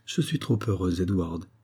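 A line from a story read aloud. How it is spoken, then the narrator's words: Quiet, half-frightened. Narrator (French): dit-elle tout bas, et d'un ton à demi effrayé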